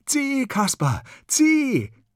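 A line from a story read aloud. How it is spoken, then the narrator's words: Called out. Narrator (German): ruft der Kasper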